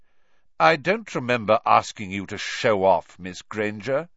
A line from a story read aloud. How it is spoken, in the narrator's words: said Snape coldly